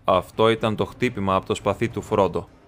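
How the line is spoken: Plain. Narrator (Greek): είπε

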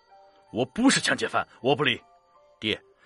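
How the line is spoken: Straining, desperate shout. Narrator (Chinese): 陆阳扯着脖子喊

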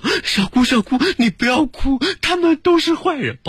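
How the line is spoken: Child crying while speaking. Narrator (Chinese): 琪琪哭，琪琪说

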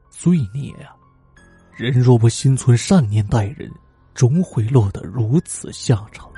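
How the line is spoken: Old people sighing. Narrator (Chinese): 老人们摇头感叹

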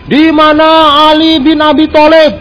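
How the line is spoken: Loud shout. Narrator (Indonesian): Rasulullah sallallahu alaihi wasallam dengan lantang berteriak

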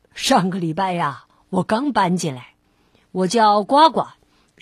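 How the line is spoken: Light smiling. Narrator (Chinese): 这只青蛙笑了笑

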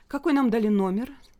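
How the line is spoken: Plain. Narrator (Russian): спросила Лина

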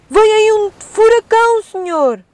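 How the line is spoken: Sailor shouting. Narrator (Portuguese): O mar tornava-se cada vez mais agitado, até que um dos seus marinheiros gritou

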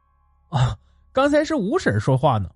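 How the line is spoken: Breathless with laughter. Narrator (Chinese): 我已经笑岔了气，拼命道

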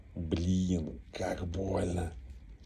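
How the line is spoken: Quiet pained remark. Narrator (Russian): Злата ударилась головой о что-то металлическое и тихо сказала

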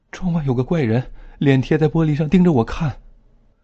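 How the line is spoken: Tearful voice. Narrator (Chinese): 刘恋带着哭腔说

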